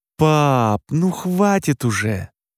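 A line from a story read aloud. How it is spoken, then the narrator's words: Groaning. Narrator (Russian): простонал Роман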